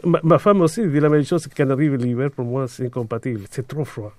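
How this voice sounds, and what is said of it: Speaks French with a foreign accent. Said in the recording (French): “malgré ton accent”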